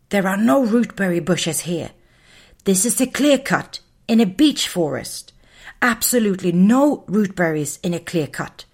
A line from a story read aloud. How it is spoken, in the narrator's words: whispered Muffin